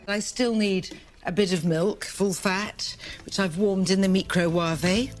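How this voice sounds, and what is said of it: Accent, distinctive pronunciation of microwave. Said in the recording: “It's the accent. Everything sounds better. ... I had no idea that we've all been mispronouncing microwave”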